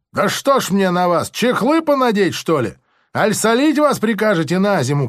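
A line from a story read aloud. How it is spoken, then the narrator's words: Bewildered shout, official. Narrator (Russian): крикнул опять пристав с недоумением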